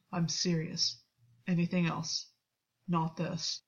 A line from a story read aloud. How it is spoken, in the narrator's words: Gwyn said quietly